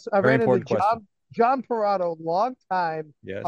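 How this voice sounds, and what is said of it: Usual voice. Nothing is said of it.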